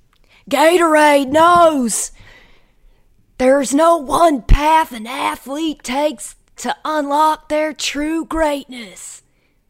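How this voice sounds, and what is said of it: Imitates a wrestler's voice. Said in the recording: “my impersonation of Dan's impersonation of Stone Cold Steve Austin”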